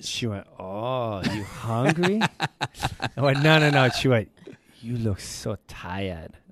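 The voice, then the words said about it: Put-on Asian accent. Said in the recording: “I don't know why I'm giving her an Asian accent.”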